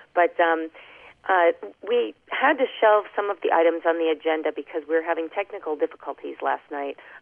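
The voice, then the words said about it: Voice affected by illness. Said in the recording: “pardon my voice, I think I've got Maria's disease now”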